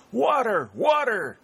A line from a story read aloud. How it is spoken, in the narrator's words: cried